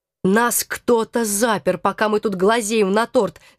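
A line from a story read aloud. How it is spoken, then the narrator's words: Growling. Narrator (Russian): зарычал Алекс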